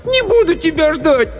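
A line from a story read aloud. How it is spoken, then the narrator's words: Shout. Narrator (Russian): Аня закричала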